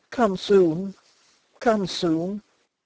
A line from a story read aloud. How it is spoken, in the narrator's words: wailed softly